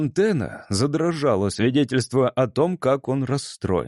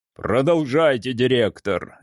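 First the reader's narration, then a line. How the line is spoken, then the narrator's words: Oyster barking. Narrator (Russian): рявкнул устриц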